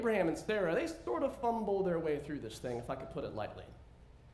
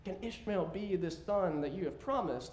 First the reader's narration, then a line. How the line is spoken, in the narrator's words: Abraham, who is now 99 years old, pleads before the Lord